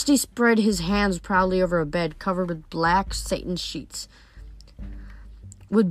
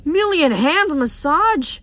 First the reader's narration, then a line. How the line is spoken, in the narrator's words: Grover cried